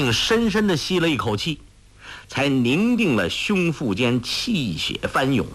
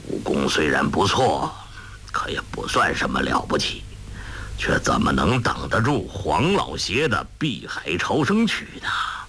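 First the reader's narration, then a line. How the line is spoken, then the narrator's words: Old man muttering. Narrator (Chinese): 那老人喃喃自语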